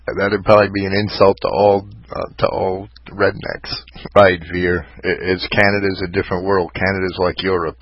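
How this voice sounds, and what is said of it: New York accent. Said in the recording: “my crummy New York accent.”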